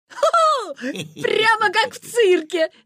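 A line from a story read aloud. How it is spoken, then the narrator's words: Laughing. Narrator (Russian): засмеялся Витя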